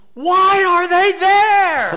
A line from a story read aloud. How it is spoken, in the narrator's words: the boss screamed